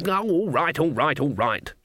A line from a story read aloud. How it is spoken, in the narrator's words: she snapped